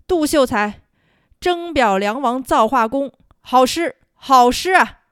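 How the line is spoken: Loud call. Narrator (Chinese): 梁王 大声喊道

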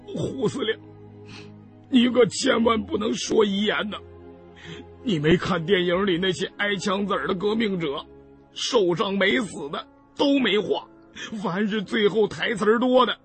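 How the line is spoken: Choked sobbing. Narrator (Chinese): 胖子哽咽道

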